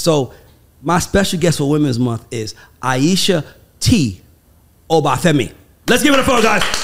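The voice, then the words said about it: Arsenio Hall impression. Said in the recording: “That was my Arsenio Hall impersonation.”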